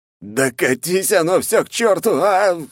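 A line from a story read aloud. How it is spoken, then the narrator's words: Young man's roar. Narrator (Russian): взревел молодой принц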